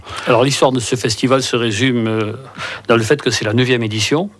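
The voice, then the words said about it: Southwestern French accent. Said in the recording (French): “vous êtes Dolois avec un accent du sud-ouest”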